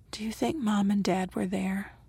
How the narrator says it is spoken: Aiden whispered

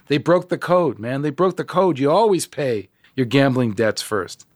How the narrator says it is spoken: He was yelling to me

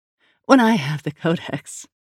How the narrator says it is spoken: she giggled

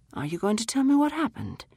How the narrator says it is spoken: His voice was gentle

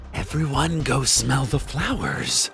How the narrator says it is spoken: they snarled, wistfully, in unison

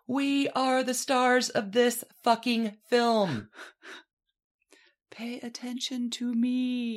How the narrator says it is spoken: screams at the top of her voice

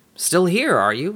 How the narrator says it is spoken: said

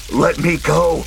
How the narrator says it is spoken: Harry roared, flailing in anger

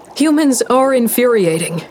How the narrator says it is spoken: I called out

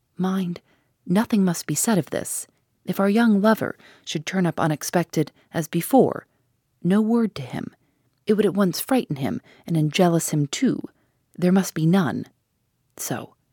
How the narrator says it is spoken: he half whispered

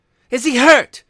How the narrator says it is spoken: demanded the mother wildly

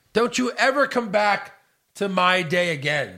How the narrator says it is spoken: she yelled

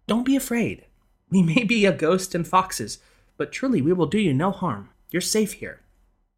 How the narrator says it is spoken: Tertia sensed his rising panic and motioned him to remain calm, telling him soothingly

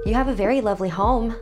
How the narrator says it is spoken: I blurted out

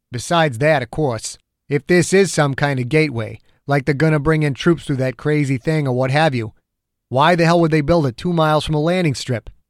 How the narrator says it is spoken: Dew grunted once

